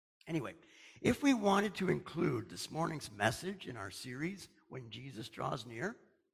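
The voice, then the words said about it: Hoarse, strained voice. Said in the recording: “I'm losing my voice here. Oh, the radio station this morning is just full of dust.”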